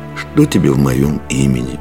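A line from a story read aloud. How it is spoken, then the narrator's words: Sad. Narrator (Russian): грустно сказал он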